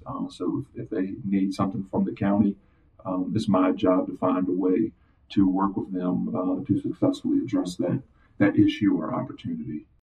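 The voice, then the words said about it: Deep regional dialect and accent. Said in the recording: “I still have the dialect and the and the accent. So, like I said, it's deep.”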